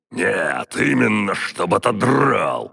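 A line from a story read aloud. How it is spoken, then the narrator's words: Growl. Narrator (Russian): рыкнул Древомир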